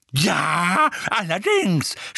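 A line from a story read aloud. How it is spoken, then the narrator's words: Shout. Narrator (German): schrie Mrs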